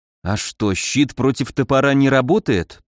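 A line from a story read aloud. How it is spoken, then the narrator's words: Dull bewildered mutter. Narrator (Russian): тупо пробормотал, растерянно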